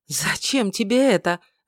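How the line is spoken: Breathy, female elf. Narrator (Russian): выдохнула эльфийка

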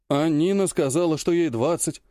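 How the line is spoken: Sighing young man. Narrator (Russian): Вздохнул молодой парень

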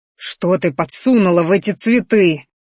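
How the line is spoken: Growl. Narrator (Russian): рыкнул Минариан

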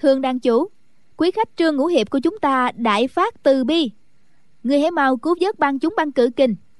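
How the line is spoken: Smiling loud call. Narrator (Vietnamese): Ân Tố Tố mỉm cười gọi to

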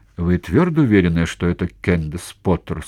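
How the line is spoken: Forced out with difficulty. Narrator (Russian): с трудом выдавила Лорен

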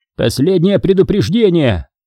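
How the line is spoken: Man's bark. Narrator (Russian): рявкнул мужчина

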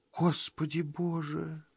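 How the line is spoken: Whisper. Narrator (Russian): шепнула, наконец, Энни

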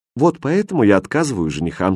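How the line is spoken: Plain. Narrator (Russian): сказала Мария

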